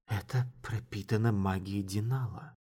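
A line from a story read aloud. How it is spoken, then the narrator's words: Muttering, slightly livelier. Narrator (Russian): пробормотала она, чуть оживившись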